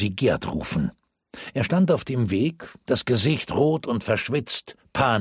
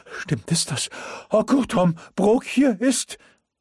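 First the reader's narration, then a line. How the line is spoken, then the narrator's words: Breathless panting. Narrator (German): keuchte er atemlos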